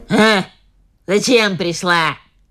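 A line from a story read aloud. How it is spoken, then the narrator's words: Old woman grumbling. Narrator (Russian): заворчала старуха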